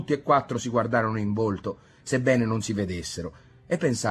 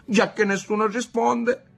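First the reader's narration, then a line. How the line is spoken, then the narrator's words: Whimpering, son. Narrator (Italian): piagnucolò il figlio della Locca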